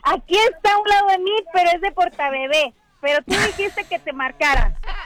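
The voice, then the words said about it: Childlike girlish voice. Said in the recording (Spanish): “¿tiene voz de niña? ... Voz de niña, gracias”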